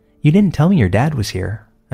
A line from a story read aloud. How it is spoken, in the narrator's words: I said